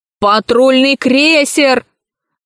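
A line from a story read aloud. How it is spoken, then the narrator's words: Yelling. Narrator (Russian): завопил узурпатор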